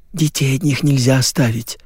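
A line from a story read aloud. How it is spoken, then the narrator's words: Whisper. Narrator (Russian): зашептала Галина Михайловна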